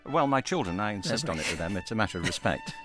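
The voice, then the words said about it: British accent. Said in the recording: “as you can tell by his accent, grew up in the UK”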